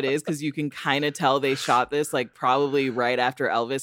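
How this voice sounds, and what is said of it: Usual voice. Nothing is said of it.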